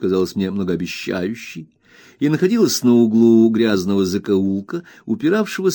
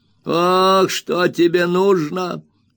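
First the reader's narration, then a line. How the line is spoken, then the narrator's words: Spiteful whining, old man. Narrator (Russian): скривив рот, спросил старик злобным, хнычущим голосом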